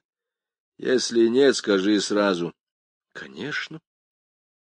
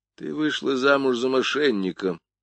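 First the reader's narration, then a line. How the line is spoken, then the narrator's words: Gloomy. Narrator (Russian): мрачно сказал я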